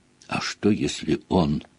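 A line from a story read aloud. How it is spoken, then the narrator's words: Quiet whisper. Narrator (Russian): тихо прошептала Гермиона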